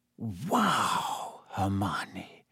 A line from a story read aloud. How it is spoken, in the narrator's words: Harry whispered